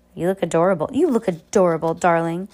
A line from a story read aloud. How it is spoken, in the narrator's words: purred Esme